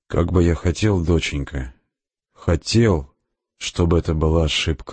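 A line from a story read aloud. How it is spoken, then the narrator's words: Sighing. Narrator (Russian): вздохнул капитан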